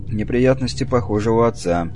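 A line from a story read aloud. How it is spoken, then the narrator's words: Gloomy. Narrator (Russian): мрачно проговорил он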